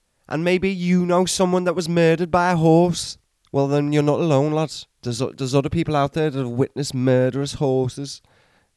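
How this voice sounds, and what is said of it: Inconsistent put-on Welsh/Scottish accent. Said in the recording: “Your accent went very Welsh. It went very Scottish at times. And it just went a bit all over the place.”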